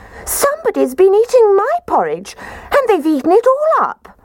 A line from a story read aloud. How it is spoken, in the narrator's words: Baby Bear positively squeaked when he said